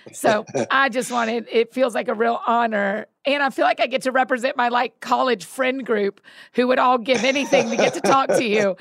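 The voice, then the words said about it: Teary, emotional voice. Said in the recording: “as I'm getting teary”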